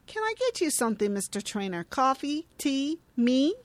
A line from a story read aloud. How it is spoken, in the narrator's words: Tess laughs stiffly